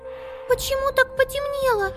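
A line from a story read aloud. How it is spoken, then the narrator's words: Squeak. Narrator (Russian): пискнула Амелия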